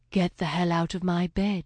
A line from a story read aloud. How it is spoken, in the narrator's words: she said, in a velvet voice that only made him desire her more